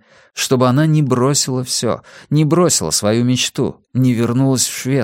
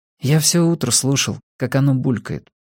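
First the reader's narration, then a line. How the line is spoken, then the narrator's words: Quiet, a son answering. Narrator (Russian): тихо ответил сын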